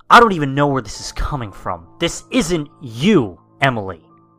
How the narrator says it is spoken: inhaling and exhaling angrily, stated

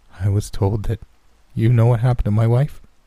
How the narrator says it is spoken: His voice was anxious, his words eager for the answers that he'd waited for almost a decade

